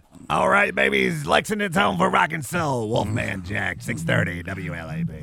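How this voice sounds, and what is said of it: Imitates a radio DJ's voice. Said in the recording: “your best Wolfman Jack imitation ... That's bad. The best I could do.”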